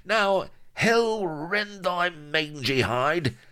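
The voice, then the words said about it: Fierce pirate wench voice. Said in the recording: “Languid accent forgotten, it was the pirate wench spitting blood.”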